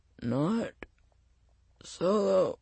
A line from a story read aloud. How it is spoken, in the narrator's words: he said, his voice straining